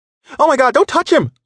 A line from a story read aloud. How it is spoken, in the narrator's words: a woman exclaimed